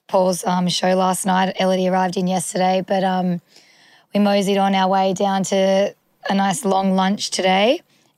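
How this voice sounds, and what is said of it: Hoarse, strained voice. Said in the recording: “I've clearly lost my voice.”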